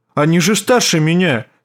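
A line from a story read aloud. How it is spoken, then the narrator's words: Defensive tone. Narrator (Russian): сказал он оборонительным тоном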